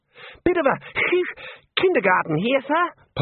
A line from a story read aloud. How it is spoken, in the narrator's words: Ponder wheezed